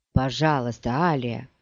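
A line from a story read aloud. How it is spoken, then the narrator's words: Mumbling. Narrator (Russian): бормотал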